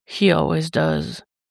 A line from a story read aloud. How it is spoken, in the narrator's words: he murmurs, almost regretfully